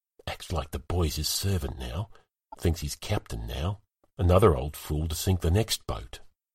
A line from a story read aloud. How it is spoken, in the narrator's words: Emod whispering to Henging